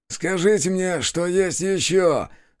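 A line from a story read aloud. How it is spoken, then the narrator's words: Predatory, through clenched teeth. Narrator (Russian): С хищной усмешкой процедил один из стрелков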